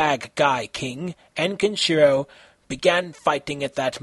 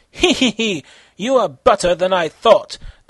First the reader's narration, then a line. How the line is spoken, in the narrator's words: the bad guy king chuckled